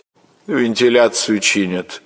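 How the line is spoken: Indifferent voice. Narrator (Russian): равнодушным голосом отвечала она

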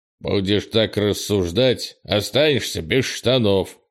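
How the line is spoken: Stern interruption. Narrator (Russian): строго перебил Крис

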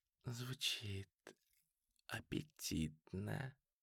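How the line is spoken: Whisper in ear. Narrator (Russian): прошептала она ему в ухо

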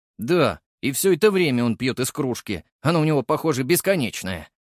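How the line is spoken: Amused grunt. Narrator (Russian): хмыкнул Леший

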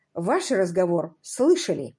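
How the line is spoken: Plain. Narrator (Russian): наконец сказал он

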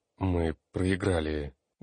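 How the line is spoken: Dull, hollow young man. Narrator (Russian): глухо произнес парень

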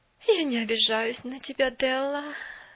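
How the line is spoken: Sigh. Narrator (Russian): вздохнула мисс Керри

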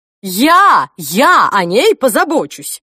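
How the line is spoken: Grandmother shouting. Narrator (Russian): выкрикнула бабушка

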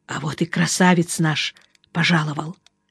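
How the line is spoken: Hoarse. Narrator (Russian): он сипло сказал

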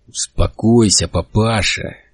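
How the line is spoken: Quiet grating voice. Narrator (Russian): тихо проскрежетал Расти

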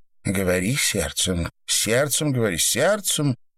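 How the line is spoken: Joyful whisper. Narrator (Russian): радостно прошептала Рутман

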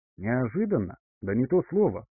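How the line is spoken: Snorted. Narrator (Russian): хмыкнул Эдвин

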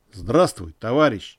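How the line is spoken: Quiet, in Russian. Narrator (Russian): негромко произнес Николай по-русски

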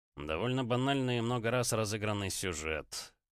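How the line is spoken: Skeptical scoff. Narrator (Russian): хмыкнул гость, скептически

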